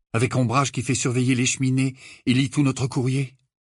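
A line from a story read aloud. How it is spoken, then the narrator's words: Desperate tone. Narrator (French): répondit Harry d'un ton désespéré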